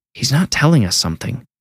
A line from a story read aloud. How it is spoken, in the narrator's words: Brianna whispered